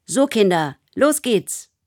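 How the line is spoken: Mother calling out. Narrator (German): ruft Mama

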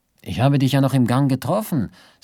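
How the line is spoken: Plain. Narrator (German): sagte Karls Ersatzmann

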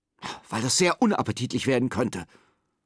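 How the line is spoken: Angry hiss. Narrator (German): faucht ihn seine Tante an

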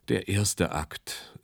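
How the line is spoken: Sigh. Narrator (German): seufzte er

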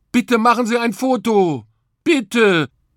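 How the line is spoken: Called out. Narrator (German): rief

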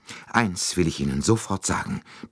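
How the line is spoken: Breathless. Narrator (German): begann sie atemlos

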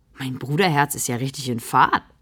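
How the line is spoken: Secret giggle. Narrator (German): kichert sie insgeheim

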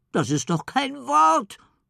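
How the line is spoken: Sobbing. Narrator (German): schluchzt Ellie

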